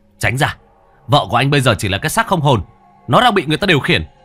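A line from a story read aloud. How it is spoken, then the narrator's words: Shout. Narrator (Vietnamese): Hải quát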